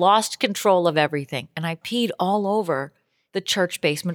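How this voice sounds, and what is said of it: Usual voice. Nothing is said of it.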